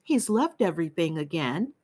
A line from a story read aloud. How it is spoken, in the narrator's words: she used to say, almost sadly